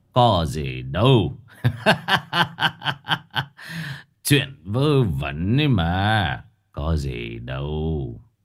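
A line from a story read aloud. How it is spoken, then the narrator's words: Bursting into laughter. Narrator (Vietnamese): Ông thầy Khuyết bấy giờ mới bật cười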